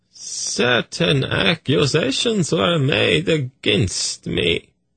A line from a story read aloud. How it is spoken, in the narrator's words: he said in a pained voice